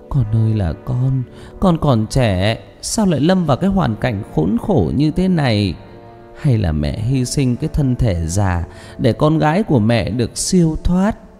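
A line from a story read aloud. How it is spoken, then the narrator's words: Mother tearful lament. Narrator (Vietnamese): Mẹ Phượng khóc lóc kể lể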